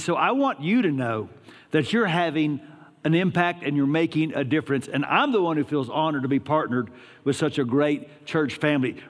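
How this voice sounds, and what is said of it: Texas accent. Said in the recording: “This is called a Texas accent ... this is how I sound”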